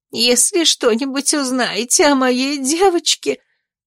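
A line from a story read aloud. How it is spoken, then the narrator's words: Sobbing. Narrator (Russian): всхлипнула опекунша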